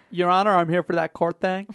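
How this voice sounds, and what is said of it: Terrible attempted American Missourian accent. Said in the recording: “Is that a Missourian accent? ... A terrible accent. ... was that attempted an American accent of sorts?”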